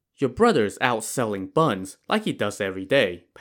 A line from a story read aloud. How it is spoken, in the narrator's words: Pan Jinlian answered